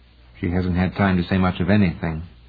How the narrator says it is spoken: Lanier said quietly

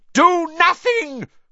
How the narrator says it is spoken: Voldemort shrieked to the Death Eaters

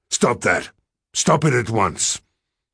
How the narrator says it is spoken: angry for having been startled by the harsh, masculine voice, and said sharply

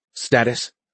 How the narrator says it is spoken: Perkins asked anxiously

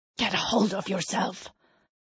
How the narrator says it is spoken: the soldier hisses

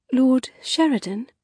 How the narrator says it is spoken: she began, her voice almost cracking with tension

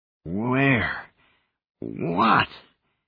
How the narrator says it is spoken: croaked

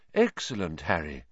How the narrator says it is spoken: Lupin muttered

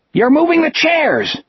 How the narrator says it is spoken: the tall boy screamed behind him

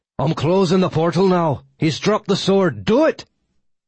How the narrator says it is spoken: Angus Ogh crowed in victory and yelled to Radomiwa

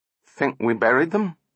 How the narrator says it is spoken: quavered Donovan

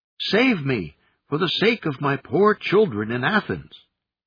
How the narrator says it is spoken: the monkey cried out

